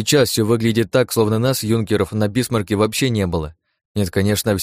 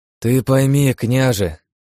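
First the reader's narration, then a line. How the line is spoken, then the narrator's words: Sighing. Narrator (Russian): вздохнул Павел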